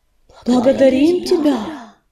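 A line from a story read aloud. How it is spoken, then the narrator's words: Whispered by cats. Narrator (Russian): прошептали остальные коты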